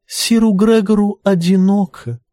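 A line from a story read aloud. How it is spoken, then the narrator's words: Sweet little voice. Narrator (Russian): добавила Тиена сладким септинским голоском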